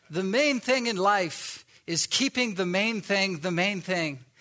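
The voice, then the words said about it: Put-on South African accent. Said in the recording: “he had a really cool English, I would guess South African accent ... I'll try to summon the inner South African accent here”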